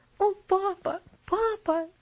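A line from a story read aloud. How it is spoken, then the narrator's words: Sobbing. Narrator (Russian): всхлипывала она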